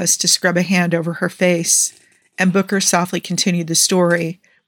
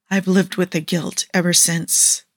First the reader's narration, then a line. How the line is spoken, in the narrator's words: Andy said, in a hushed whisper almost too soft for Niall to hear